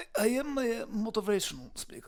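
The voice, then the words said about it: Russian or Ukrainian accent. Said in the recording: “What's that accent? ... I am from Russia. I'm from Ukraine.”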